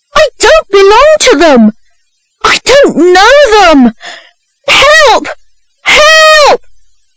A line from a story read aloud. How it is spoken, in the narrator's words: cried Oliver, struggling in the man's powerful arms